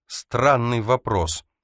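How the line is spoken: Snapping retort. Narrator (Russian): огрызнулась Эльза

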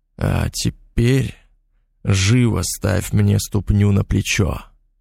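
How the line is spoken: Harsh, hoarse with excitement. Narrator (Russian): жестко сказал, охрипшим от возбуждения голосом

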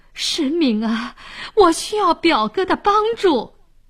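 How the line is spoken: Pleading. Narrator (Chinese): 沈呆哀求说

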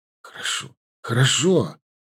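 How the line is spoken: Exhaled after a pause. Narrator (Russian): выдохнул Клим, повременив несколько мгновений

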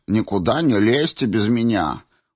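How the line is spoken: Snorting mock imitation. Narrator (Russian): фыркнула Сенцова, пародируя инструктора

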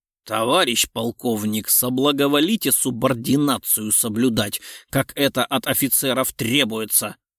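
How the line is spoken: Growled reply. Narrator (Russian): Прорычал в ответ генерал

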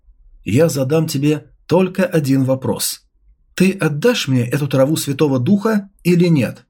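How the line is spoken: Calm, serious. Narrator (Russian): его взгляд стал серьезным, и он спокойно сказал

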